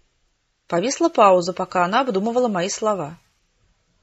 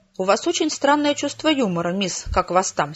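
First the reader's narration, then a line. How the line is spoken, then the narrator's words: Angry reply. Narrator (Russian): сердито ответила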